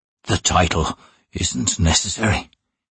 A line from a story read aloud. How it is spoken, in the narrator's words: he whispered